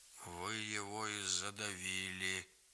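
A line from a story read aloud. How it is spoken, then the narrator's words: Hollow, muffled. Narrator (Russian): глухо сказал Григорий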